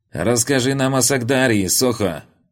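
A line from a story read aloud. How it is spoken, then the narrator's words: Shout. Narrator (Russian): закричал кучияр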